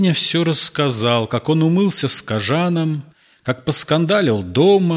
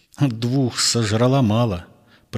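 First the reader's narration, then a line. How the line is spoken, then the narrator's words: Through gritted teeth. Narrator (Russian): процедил Колька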